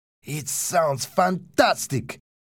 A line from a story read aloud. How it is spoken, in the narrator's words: exclaimed Pablo